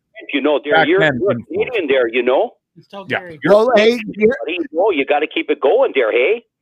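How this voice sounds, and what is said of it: Put-on Canadian accent. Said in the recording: “The Canadian accent came out a little bit?”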